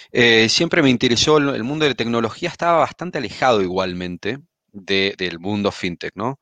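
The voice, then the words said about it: Argentine Spanish accent. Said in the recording (Spanish): “como habrán notado por mi acento, soy argentino”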